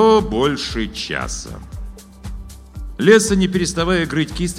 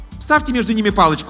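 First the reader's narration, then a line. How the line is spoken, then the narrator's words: Dismissive. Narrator (Russian): отмахнулась художница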